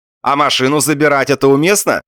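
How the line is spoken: Tactless shout. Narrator (Russian): закричал нетактичный Балаганов

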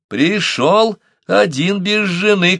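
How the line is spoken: Shouted. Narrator (Russian): крикнула Ития

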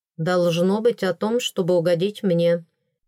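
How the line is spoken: Even, level tone. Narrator (Russian): ровно ответил Делаэрт

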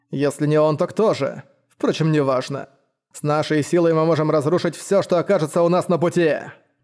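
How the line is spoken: Scornful snort. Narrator (Russian): Презрительно хмыкнув женщина-парагон

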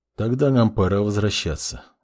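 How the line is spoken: Flat emotionless voice. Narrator (Russian): безэмоциональным голосом ответил маг

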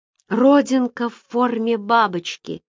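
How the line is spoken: Exclamation. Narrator (Russian): воскликнул Гарри Берг

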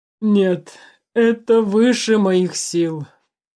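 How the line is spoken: Groaned. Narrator (Russian): простонал Алексей Александрович

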